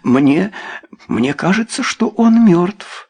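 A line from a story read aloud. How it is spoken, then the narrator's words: Trembling voice. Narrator (Russian): дрожащим голосом произнесла Люсинда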